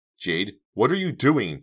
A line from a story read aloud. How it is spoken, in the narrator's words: Dina cried